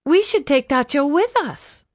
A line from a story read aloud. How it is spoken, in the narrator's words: Vampi cried